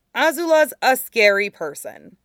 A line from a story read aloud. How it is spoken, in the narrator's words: Aang said firmly